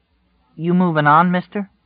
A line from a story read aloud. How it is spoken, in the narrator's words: Tom said hesitantly